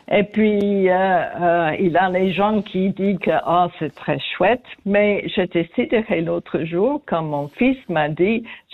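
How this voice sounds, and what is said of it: Noticeable non-native accent in French. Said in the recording (French): “comme vous pouvez entendre, j'ai toujours mon accent. ... cet accent qu'on entend avec plaisir”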